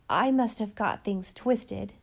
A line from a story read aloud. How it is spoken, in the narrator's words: said Mrs